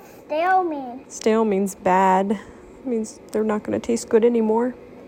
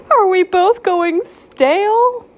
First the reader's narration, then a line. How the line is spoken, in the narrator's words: Pancake screamed